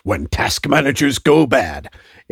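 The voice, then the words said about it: Dramatic announcer voice. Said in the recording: “in my best, announcer voice.”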